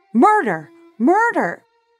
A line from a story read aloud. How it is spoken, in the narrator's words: Shocked out of her silence, Jacquette screamed from her second-story window